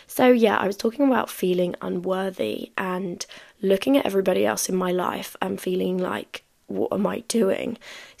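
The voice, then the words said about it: Strained, sore-throated voice. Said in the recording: “my voice is so annoying ... extra annoying because of the fact that I have a sore throat”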